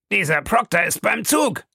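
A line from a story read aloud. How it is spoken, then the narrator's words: Calling out. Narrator (German): rief Fix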